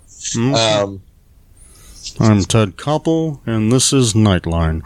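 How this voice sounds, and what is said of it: Imitates a news anchor's voice. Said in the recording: “I think I got a new impersonation ... A Ted Koppel impersonation.”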